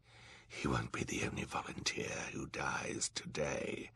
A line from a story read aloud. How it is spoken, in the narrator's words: he said in a terrible whisper